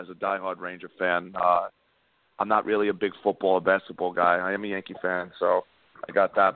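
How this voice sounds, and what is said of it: Raspy voice, New York Giants-fan accent. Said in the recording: “You got the voice of a football fan ... You got like the Giants accent going ... it's probably just the raspiness”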